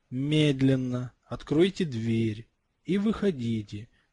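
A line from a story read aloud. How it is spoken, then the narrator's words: Calm. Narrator (Russian): спокойно произнес Гарри Поттер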